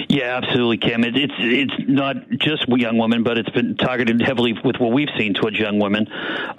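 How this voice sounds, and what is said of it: Boston accent. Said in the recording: “you're from Boston. You have that great accent. I can already hear it.”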